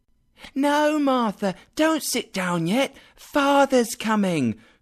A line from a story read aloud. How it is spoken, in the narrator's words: cried the two young Cratchits